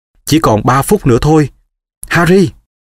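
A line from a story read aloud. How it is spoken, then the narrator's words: Girl calling out. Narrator (Vietnamese): Cô bé kêu lên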